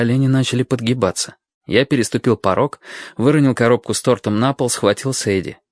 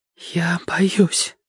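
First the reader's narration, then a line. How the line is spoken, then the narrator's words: Whisper. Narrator (Russian): прошептала она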